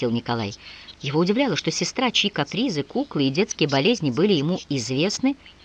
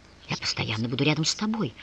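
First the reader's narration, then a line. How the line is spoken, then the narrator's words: Muttering. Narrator (Russian): пробормотал Николай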